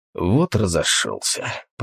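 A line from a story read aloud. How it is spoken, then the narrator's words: Muttering. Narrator (Russian): пробормотал охотник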